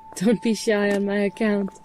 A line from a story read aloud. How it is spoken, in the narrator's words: I laugh